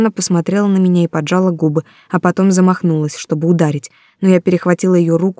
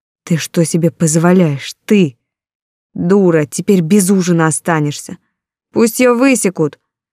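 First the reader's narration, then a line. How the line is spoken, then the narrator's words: Hissed through teeth. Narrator (Russian): Рамона процедила сквозь зубы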